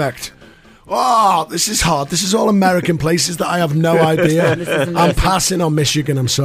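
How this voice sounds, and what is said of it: Usual voice. Nothing is said of it.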